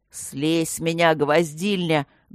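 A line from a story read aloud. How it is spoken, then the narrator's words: Nasal demand, in pain. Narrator (Russian): гнусаво потребовал Нат, чувствуя, как колено гномки упирается в самое дорогое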